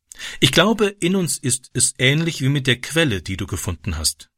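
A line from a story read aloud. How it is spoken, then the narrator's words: Plain. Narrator (German): sagte sie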